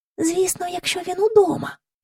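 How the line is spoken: Whispered. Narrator (Ukrainian): пошепки сказала Джейн до Майкла

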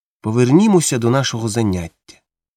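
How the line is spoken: Calm. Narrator (Ukrainian): спокійно сказав Монте

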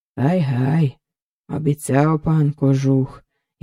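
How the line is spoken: Bitter sigh. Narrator (Ukrainian): гірко зітхнув гайдамака

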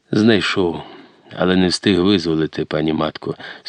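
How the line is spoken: Sad reply, heavy sighing. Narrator (Ukrainian): сумно відповів козак, тяжко зітхаючи

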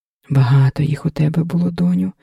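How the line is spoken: Reproachful sigh. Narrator (Ukrainian): докірливо зітхнула Лоська

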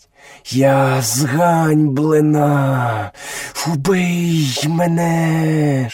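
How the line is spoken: Cobra hissing. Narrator (Ukrainian): шипіла кобра

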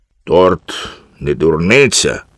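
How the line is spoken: Stern. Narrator (Ukrainian): суворо сказав Карлсон

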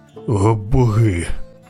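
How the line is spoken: Groaning, merchant. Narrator (Ukrainian): простогнав купець

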